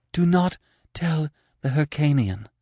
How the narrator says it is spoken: she panted

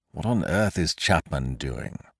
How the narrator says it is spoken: muttered Kesselbach

